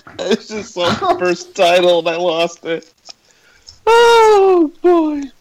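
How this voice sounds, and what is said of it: Usual voice. Nothing is said of it.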